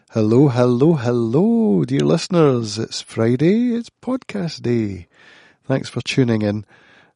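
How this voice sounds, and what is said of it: Husky voice from a cold. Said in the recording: “I've got a bit of a cold today. You might hear it in my voice. ... I'm sounding kind of husky.”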